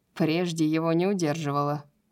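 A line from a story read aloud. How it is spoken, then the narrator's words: Amused snort. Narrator (Russian): хмыкнул Баксиан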